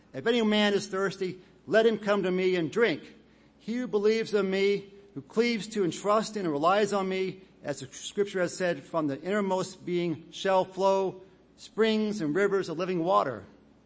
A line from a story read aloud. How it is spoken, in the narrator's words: Jesus cried in a loud voice